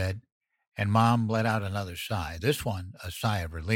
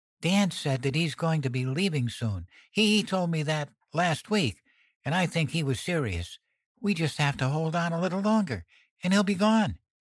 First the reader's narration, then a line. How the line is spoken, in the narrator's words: Before I could stop myself, I blurted